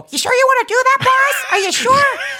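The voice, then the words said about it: Imitated Clippy cartoon voice. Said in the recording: “does the Clippy voice”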